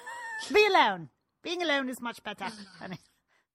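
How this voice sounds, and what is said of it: Very poor put-on British accent. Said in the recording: “That is a very poor British accent ... The worst I've ever heard.”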